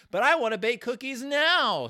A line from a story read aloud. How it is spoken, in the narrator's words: shouted Sister, getting into her role